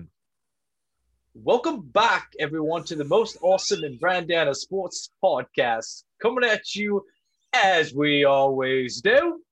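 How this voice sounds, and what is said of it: Attempted Australian accent. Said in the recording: “So I'm always terrible ... I'd like to rock the Australian accent ... Yeah, Australian.”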